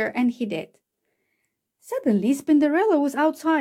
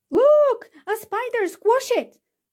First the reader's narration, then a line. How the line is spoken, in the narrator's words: screamed someone